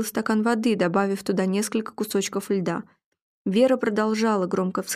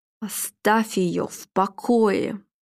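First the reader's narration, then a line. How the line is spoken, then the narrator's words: Hissing close to ear. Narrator (Russian): прошипел Филипп, наклонившись к его уху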